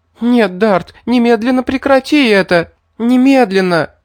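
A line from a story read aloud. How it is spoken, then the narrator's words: Terrified tearful wailing plea. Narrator (Russian): перепуганная до смерти Альма завыла, выкрикивая сквозь слезы мольбы о пощаде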